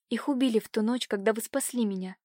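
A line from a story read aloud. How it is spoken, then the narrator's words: Hollow, sepulchral whisper. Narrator (Russian): прошептала Катюша глухим загробным голосом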